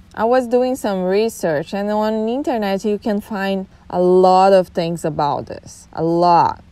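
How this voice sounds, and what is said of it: Thick Brazilian accent in English. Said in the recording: “I'm Brazilian ... I have a thick accent still”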